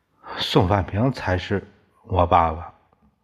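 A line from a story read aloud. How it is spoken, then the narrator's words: Muttering. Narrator (Chinese): 嘟囔着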